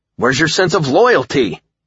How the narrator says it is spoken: I shouted, appalled

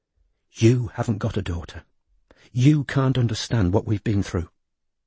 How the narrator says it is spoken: whispered

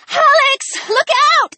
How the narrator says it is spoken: Ellie shrieked

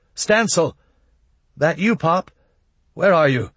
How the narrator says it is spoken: Almost in panic, shouted

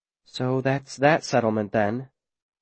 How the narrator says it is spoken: Viola whispers

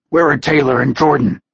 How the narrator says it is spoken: he asked hoarsely

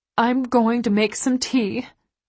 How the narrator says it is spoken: she says, her voice hoarse with unshed tears

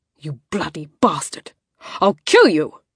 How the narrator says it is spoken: The roar vibrated through his entire body

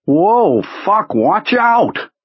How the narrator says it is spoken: Pete yelled

